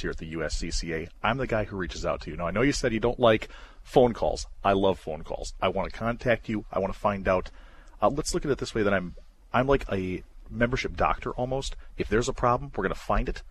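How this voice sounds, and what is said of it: Polished radio-style voice. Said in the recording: “This cat's got a radio voice”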